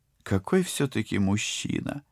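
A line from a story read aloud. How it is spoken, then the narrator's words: Sighing, out of place. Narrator (Russian): невпопад вздохнула Полина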